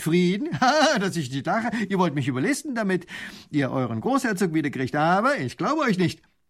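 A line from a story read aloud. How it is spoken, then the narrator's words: Lieutenant laughing scornfully. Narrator (German): Ha, lacht der Leutnant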